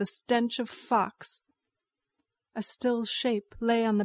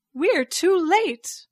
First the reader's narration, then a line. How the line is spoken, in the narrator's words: Meng Shaochen cried